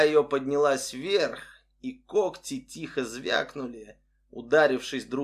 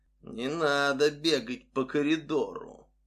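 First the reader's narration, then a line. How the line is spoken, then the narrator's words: Cheerful low unnatural whisper. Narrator (Russian): дежурная весело прошептала низким неестественным голосом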